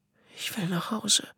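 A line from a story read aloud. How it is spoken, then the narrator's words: Whispered. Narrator (German): flüsterte Nico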